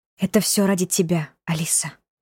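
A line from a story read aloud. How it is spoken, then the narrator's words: Whisper. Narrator (Russian): прошептала Варвара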